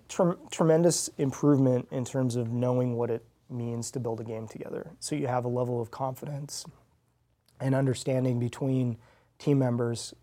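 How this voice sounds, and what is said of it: Hoarse, fading voice. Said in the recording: “I'm losing my voice. ... I'm drying you out.”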